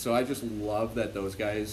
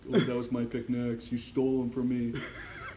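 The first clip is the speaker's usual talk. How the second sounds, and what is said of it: Mumbling impression of a friend. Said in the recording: “great Stu impression”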